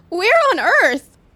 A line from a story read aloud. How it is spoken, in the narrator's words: she sputtered out